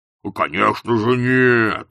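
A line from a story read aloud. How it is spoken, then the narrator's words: Growl. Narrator (Russian): зарычал Кардинг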